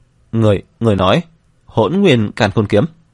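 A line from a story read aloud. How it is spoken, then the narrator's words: Trembling question. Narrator (Vietnamese): Vân Phi Dương run rẩy hỏi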